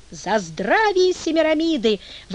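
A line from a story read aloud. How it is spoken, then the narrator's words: Guests exclaiming. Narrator (Russian): воскликнули гости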